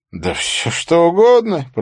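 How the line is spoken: Moaning. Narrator (Russian): простонал Стори Эвна

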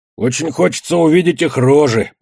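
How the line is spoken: Grumbling. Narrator (Russian): проворчал Бадья

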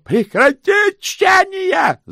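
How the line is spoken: Yelling. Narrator (Russian): заорал Сдушкомс

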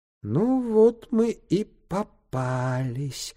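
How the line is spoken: Whispering little man. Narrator (Russian): прошептал человечек

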